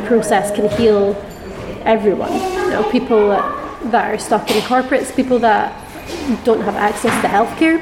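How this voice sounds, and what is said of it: Scottish accent. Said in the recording (Dutch): “your accent, where does it come from? ... I'm from Scotland.”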